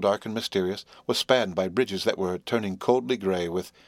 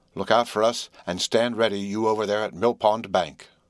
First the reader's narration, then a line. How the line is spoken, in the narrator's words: said Herbert cheerfully